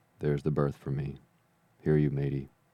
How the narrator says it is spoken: he cried

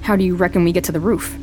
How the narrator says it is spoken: Cass says

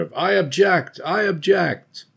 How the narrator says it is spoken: cries are heard of

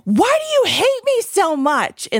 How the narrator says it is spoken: he yelled, and it was embarrassing at the time, he yelled

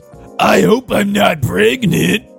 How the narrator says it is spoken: he groaned

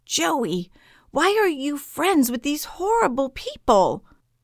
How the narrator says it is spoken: yell

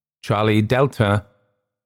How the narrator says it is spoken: The controller's voice, sounding in my headphones, as if he was with me in the tiny cockpit, shouting in my ear

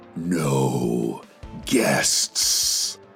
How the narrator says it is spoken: the voice boomed

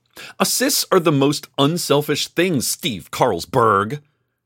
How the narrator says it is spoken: she shouted

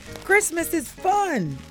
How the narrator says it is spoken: Rolly exclaimed

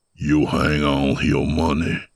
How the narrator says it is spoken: the man rasped

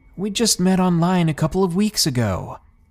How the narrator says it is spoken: I said in confusion, my voice starting to raise

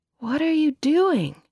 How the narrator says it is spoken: he groaned

